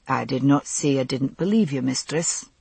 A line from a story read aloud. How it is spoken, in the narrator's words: he answered evenly